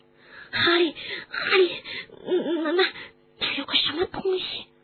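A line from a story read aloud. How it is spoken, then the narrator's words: Hoarse. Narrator (Chinese): 罗恩声音嘶哑地说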